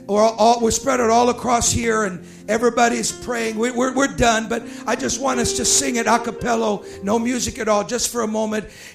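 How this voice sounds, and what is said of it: Hoarse, weak, nearly lost voice. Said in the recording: “I don't have much voice ... I've lost my voice.”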